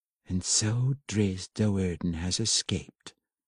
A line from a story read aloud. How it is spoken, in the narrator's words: Matron Beenri purred, and she was not unhappy